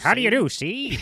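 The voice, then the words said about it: 1950s salesman voice. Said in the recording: “1950s salesman”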